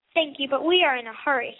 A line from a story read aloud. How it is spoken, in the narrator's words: said Belinda